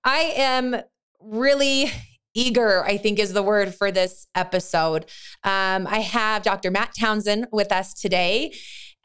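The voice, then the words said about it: Scratchy, strained voice. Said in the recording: “my scratchy voice ... did a lot of talking, and with a mic even was yelling a little bit”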